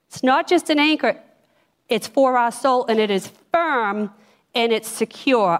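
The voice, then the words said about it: Boston accent. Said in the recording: “if you're catching the Boston accent”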